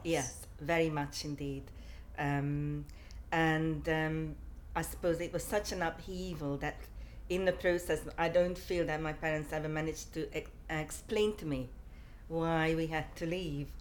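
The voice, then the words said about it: Hungarian accent. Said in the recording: “I'm originally from Hungary ... I've never managed to lose my accent.”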